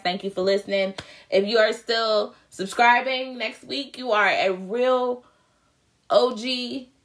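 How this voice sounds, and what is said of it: Strained, fading voice. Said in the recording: “I'm losing my voice”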